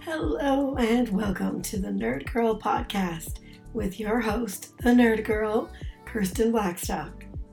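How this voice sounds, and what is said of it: Voice sounds a little off, unwell. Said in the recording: “my voice is a little bit off this week ... a bit of a respiratory uh, ailment ... my voice isn't up to snuff”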